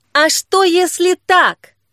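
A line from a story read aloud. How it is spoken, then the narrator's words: Shouting in face. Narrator (Russian): крикнула ему прямо в лицо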